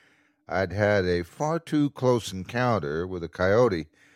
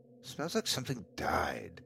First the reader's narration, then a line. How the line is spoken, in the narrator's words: I muttered to myself